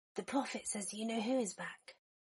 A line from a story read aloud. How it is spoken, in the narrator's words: Remus said quietly